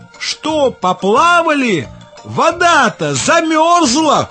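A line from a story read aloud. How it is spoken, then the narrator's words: Bird's cry. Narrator (Russian): лохматая галка и крикнула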